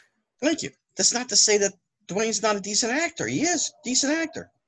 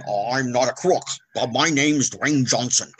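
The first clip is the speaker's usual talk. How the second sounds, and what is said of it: Richard Nixon impression. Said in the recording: “Richard Nixon ... That's a real good impersonation.”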